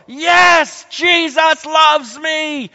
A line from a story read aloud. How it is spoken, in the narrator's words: shouting, it's so full of glee and joy